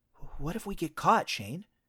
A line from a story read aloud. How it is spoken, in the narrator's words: I whispered, though no one could hear us out here